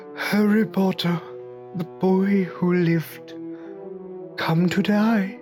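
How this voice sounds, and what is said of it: Voldemort character voice impression. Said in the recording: “my awesome Voldemort impression”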